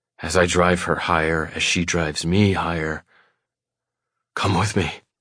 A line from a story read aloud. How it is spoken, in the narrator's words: I rasp